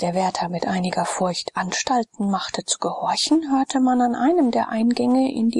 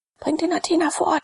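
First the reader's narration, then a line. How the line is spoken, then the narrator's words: Quick call. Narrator (German): rief schnell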